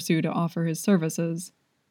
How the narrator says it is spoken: Jingyan said flatly

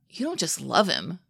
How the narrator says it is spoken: he blurts out

